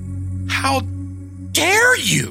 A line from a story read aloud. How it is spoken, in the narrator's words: Donna shouted fiercely